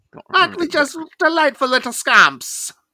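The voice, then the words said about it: Put-on Irish accent. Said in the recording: “Now it's starting to turn into an Irish accent.”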